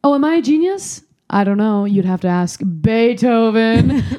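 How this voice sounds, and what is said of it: Impression of Cate Blanchett's character. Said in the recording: “Cate Blanchett's character ... great impression”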